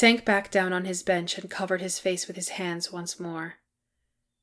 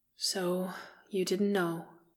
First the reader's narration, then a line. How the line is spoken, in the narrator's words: said Keeley quietly